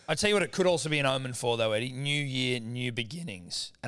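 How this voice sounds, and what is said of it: Cracking voice. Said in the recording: “my voice is cracking”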